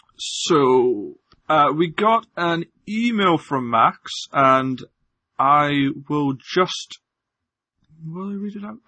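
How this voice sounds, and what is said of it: Scottish accent, often mistaken for others. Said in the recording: “I apologize for my accent. I'm definitely Scottish... I sound like this”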